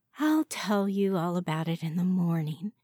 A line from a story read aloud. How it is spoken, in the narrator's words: sighed